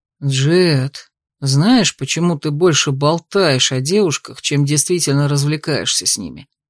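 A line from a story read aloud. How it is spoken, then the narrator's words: Insinuating question. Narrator (Russian): вкрадчиво поинтересовался Каю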